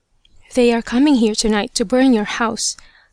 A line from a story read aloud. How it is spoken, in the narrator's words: the same voice whispered